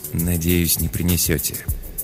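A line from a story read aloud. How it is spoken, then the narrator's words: Very quiet mumble. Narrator (Russian): пробормотал Пол так тихо, что слышал его только я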